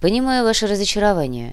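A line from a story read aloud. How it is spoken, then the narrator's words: Sincere sigh. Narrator (Russian): искренне вздохнул Сантьяго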